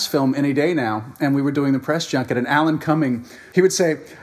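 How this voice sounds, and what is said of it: Usual voice. Nothing is said of it.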